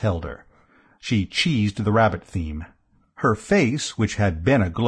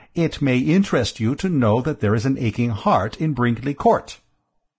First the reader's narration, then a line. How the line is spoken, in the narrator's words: I said firmly